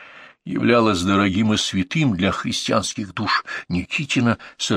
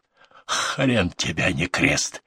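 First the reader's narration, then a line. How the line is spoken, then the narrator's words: Bloody gritted speech through broken teeth. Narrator (Russian): схаркивая багряные сгустки, процедил сквозь штакетник выбитых зубов Толкуша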